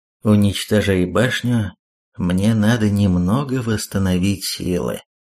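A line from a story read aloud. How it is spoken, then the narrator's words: Dead expressionless voice. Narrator (Russian): мертвым, ничего не выражающим голосом произнес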